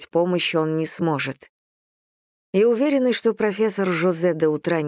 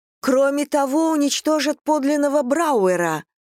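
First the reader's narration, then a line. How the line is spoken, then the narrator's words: Uncharacteristic shout. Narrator (Russian): Далее в детстве никогда не кричала, а уж во взрослом возрасте тем более, но кричит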